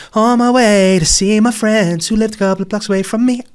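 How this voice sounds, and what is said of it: Sung impression of another singer. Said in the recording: “a Craig David impression ... beautiful singing ... Sweet, romantic, and surprising.”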